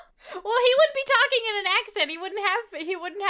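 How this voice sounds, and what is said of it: Usual voice. Nothing is said of it.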